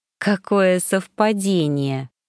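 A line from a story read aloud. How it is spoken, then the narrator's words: Drawl suppressing a smile. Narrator (Russian): протянула я, с трудом подавив, так и норовившую растянуться на губах, улыбку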